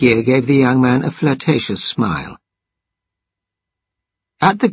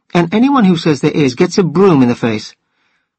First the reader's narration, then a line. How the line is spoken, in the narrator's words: she exclaimed